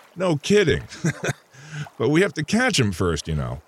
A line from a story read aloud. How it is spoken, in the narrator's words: said Brent with a chuckle